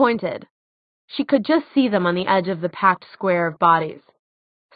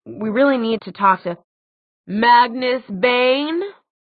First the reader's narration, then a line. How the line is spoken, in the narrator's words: The deep, booming voice belonged to a surprisingly short man who looked to be in his early 30s